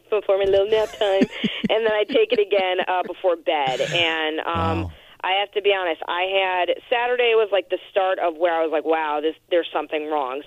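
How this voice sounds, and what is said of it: Slightly raspy voice. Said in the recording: “I can hear there's a little raspiness in your voice, but you sound great”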